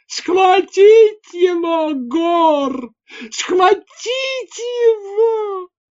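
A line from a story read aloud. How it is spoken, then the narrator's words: Hoarse yell. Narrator (Russian): Пью Моджел хрипло завопил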